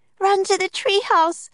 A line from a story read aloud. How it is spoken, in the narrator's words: cried Annie